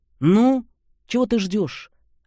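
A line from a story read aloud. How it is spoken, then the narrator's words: Irritated. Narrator (Russian): раздраженно проговорил Антипов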